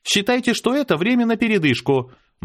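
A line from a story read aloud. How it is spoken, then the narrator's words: Cheerful announcement. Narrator (Russian): бодро объявила она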